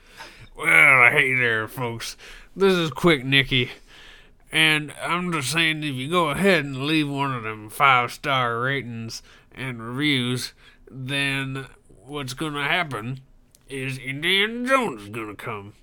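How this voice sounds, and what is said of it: Goofy cartoonish character voice. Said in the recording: “do it in a quick Mickey voice ... He'll do old Shoney”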